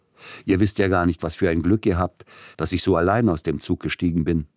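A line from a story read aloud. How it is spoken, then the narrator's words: Laughing chatter. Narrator (German): schwatzte er lachend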